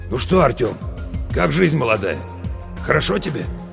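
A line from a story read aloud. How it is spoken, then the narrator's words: Hoarse. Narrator (Russian): так хрипло мне говорит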